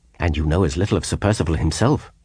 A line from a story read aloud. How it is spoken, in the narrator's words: she interposed sharply